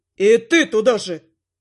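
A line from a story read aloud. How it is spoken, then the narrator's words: Elf growling. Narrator (Russian): рыкнул эльф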